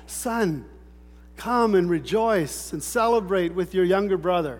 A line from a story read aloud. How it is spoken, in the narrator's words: The father pleaded with him